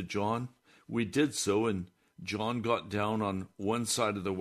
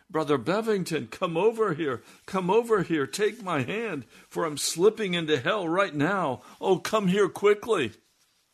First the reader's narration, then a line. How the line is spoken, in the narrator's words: he cried out